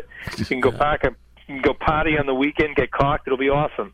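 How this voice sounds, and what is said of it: Put-on Massachusetts accent. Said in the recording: “that Massachusetts accent”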